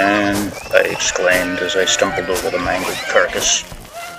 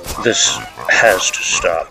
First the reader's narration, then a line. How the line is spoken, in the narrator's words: I said sternly